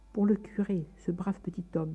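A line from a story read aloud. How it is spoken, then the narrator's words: Murmured, naively happy. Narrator (French): murmura-t-il, naïvement heureux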